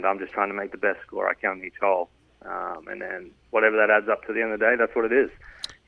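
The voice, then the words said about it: Australian accent. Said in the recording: “your accent, Australian”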